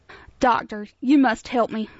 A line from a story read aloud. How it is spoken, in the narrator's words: Simon gasped